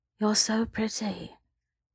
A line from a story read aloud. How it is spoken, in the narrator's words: whispers back